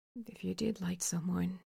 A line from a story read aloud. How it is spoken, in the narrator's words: Weiwuxian says, almost in a whisper, as if he's afraid to interrupt this strange tension too